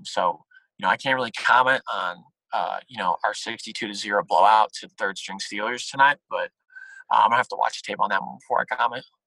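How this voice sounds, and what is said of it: Raspy impression of another person. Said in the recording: “His voice is a little raspy. ... a Hugh Jackson impersonation”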